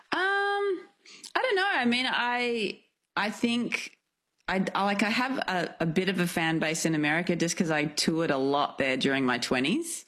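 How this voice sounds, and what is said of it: Australian accent. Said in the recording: “how much love there is for the Australian accent ... whether the Americans are enjoying my accent ... somebody was singing an Australian accent”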